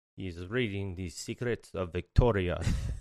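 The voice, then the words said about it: Poor Spanish accent, sounds Russian. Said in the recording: “sounds more like a Russian accent, by the way, not Spaniard ... Russian ... my imitation ... Sucks”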